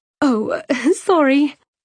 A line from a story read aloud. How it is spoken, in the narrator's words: Cyane said, forcing a light laugh